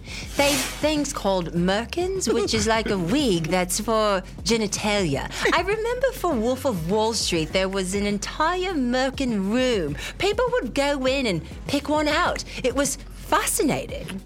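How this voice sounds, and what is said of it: Weak put-on Australian accent. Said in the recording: “I'm gonna use my Australian accent for this. It's not very good.”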